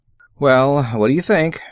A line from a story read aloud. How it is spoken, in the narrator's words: Winter said nervously